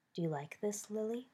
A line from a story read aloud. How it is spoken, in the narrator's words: Remus asked in a low voice